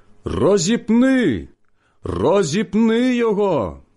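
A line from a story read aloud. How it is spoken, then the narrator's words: Crowd shouting. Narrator (Ukrainian): вони закричали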